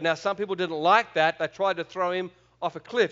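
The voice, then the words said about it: Australian accent. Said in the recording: “Is my accent okay for you? ... I'll go back to Australian”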